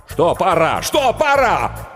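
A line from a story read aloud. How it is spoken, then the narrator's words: Nervous shouting. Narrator (Russian): Букер нервно закричал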